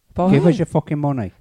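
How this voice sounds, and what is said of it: Irish accent impression. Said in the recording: “You got to do your Irishman ... his money was Bob Geldof”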